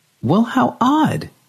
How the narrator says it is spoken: she exclaimed

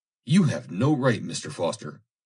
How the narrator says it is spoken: said the girl angrily

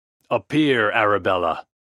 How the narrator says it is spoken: he exclaimed, in a commanding voice

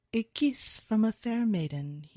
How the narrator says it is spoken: purrs

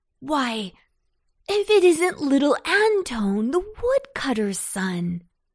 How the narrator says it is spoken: exclaimed the very stout cabbage

